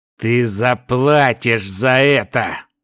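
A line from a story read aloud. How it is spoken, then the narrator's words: Growled in thought. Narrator (Russian): мысленно прорычал Талин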